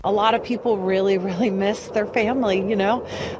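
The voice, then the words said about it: Emotional, choked-up voice. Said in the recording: “I'm sorry I'm getting emotional, but it's painful.”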